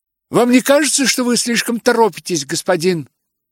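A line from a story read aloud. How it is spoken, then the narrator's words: Exclaiming. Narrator (Russian): воскликнула она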